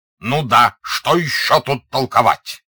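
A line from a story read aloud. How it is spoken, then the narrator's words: Heated angry shouting. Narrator (Russian): Пфуль, как в бою разгоряченный человек бьет по своим, сердито кричал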